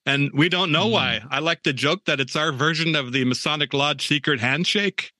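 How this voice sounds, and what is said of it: Native American reservation accent. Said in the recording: “There is a thing called the Indian reservation accent that we all have ... The reservation accent from tribe to tribe sounds something like this ... You hear somebody talking like this and you know they're from the res ... a little Midwestern ... a little Bemidji in it ... a little Canadian in it”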